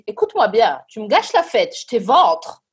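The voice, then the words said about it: Sing-song eastern French accent. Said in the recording (French): “Avec cet accent si chantant de l'Est de la France”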